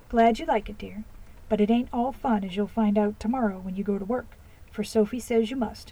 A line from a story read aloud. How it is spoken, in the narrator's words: answered Mrs